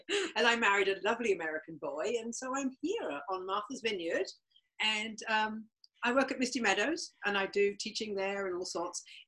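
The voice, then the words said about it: Distinct noticeable accent. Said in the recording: “you have an accent... A weird accent... you can tell by the accent”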